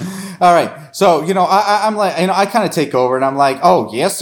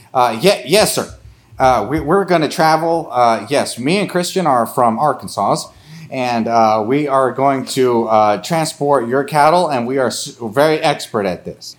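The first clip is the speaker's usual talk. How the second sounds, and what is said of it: Bad put-on Western accent. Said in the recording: “My Western accent is terrible.”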